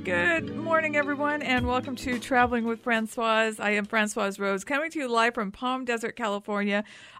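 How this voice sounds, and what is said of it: Hoarse, scratchy voice. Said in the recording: “I think I'm losing my voice. Yesterday it was kind of scratchy.”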